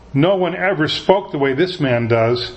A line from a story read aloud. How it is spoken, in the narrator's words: the guards replied